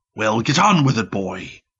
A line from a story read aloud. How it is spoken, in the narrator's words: said irritably